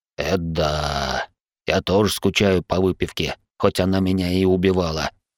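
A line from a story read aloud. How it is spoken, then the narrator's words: Snort. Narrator (Russian): хмыкнул Дик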